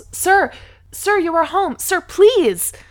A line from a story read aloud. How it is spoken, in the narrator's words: the woman yells